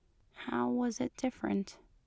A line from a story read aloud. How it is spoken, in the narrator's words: He asked softly